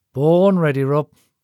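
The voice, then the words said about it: Tired, weary delivery. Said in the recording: “Andy replied in a tired voice.”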